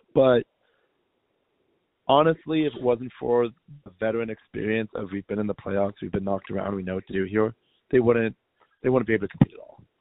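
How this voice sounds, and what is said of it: Strained, worn-out voice. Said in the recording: “excuse my voice. I was in the arena.”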